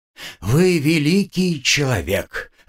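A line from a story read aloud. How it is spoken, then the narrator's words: Breathed out. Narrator (Russian): выдохнул Равах Ага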